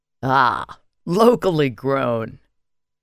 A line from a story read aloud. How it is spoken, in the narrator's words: he said with a raspy chuckle